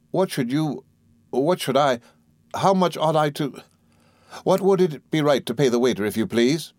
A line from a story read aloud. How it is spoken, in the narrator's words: stammered, blushing